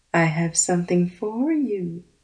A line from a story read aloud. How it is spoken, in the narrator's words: purred